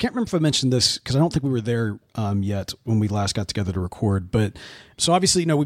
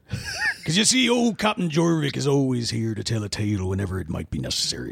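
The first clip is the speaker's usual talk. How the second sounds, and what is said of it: Put-on pirate West Country accent. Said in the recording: “is that the right accent? ... a southwestern Somerset accent he says it's akin to a pirate's accent”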